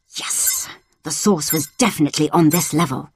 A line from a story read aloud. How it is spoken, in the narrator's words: he muttered